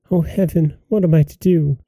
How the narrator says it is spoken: she cried and said

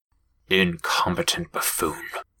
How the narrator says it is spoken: Klein muttered

